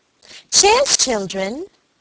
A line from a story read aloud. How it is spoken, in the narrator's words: cried Helen